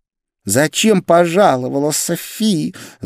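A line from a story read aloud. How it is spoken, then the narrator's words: Angry hiss, woman. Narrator (Russian): зло прошипела блондинка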